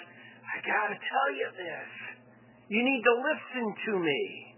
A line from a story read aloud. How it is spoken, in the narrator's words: somebody who isn't just groaning, but they're like